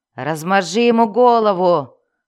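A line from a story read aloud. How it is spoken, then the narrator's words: Growling. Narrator (Russian): прорычал один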